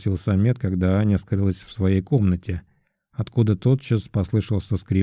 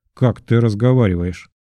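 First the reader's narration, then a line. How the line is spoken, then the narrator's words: Laughing. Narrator (Russian): Самед рассмеялся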